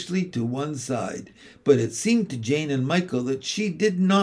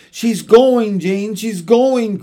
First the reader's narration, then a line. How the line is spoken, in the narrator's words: cried Michael, weeping